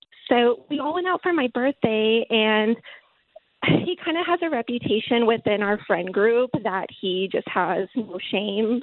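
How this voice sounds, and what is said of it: Shaky, nervous voice. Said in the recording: “my voice is kind of shaking. I'm a little nervous.”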